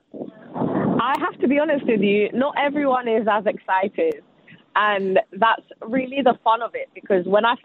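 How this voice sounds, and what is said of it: Natural British English accent. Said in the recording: “was that English accent real? ... that is really how you talk ... are they doing a British accent? ... this is really your British accent.”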